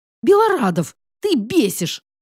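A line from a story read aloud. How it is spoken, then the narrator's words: Irritated snap. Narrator (Russian): Снова огрызнулась Василиса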